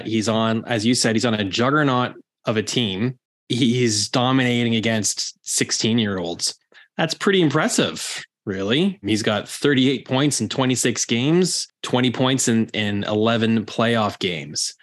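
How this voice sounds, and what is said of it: Sarcastic delivery. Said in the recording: “That was sarcasm, by the way, if you can't detect it.”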